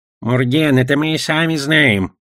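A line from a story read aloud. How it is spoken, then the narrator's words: Goblin snorting. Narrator (Russian): хмыкнул гоблин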